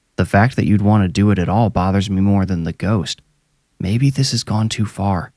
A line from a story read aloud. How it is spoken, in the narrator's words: Duncan whispered low